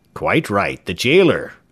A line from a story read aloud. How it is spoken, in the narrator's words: cried a well-known voice